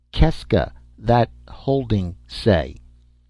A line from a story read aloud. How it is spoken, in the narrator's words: I said slowly with a patience